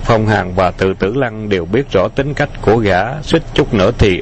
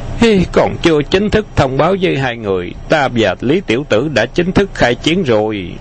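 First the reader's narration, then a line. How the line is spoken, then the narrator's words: Laughing, bold and spirited. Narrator (Vietnamese): Khấu Trọng cũng bật cười, hào khí bốc lên ngút trời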